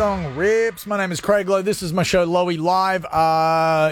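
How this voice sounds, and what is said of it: Usual voice. Nothing is said of it.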